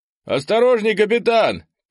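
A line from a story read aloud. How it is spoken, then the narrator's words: Distant shout. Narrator (Russian): крикнул кто-то с левого фланга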